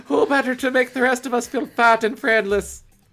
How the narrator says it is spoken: Gaia laughed

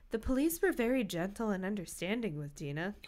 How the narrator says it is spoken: Hallie said quietly

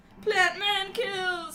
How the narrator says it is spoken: he cried

